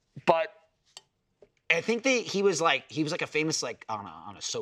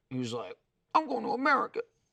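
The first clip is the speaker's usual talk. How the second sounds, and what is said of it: Imitates another person's voice. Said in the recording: “That's a great impression.”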